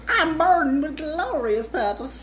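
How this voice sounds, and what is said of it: Put-on Southern hillbilly accent as Loki. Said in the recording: “hillbilly Loki. It's like a southern accent.”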